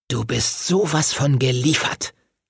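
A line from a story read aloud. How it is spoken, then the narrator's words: Hissed. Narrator (German): zischte er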